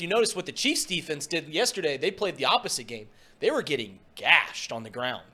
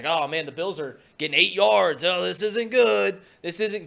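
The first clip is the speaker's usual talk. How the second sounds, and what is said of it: Impression of Tony Romo. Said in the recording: “doing his little Tony voice.”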